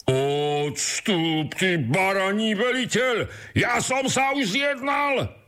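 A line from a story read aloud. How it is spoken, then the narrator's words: Shouting again. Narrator (Slovak): vykríkol znovu ten prvý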